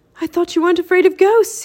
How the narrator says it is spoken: he said to Teddy, gasping

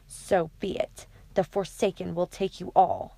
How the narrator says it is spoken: Between his teeth, he hissed

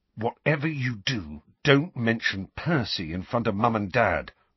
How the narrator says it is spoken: Ron told Harry in a tense voice

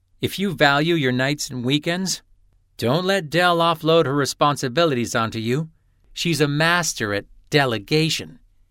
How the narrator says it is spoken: said in a warning tone

